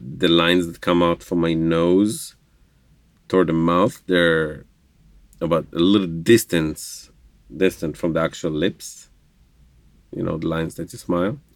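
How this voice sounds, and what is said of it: Slight Israeli accent. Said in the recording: “we hear that you have an accent ... I am from Israel, Jerusalem, Israel ... speaking Hebrew. So that's where the minor accent leftovers are.”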